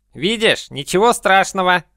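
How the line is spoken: Worn-out wheeze. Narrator (Russian): просипел Вещун, которому тоже пришлось несладко

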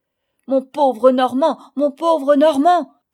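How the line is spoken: Father shouting. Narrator (French): criait mon père

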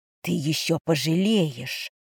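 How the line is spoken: Tight-lipped hiss. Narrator (Russian): поджав губы, прошипела Эва

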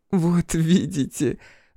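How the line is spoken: Laughing. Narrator (Russian): рассмеялась она

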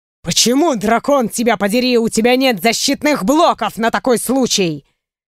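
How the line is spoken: Growling. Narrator (Russian): Зарычал он уже на меня

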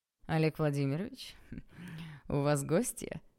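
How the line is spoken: Cheerful inquiry. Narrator (Russian): Весело поинтересовался один

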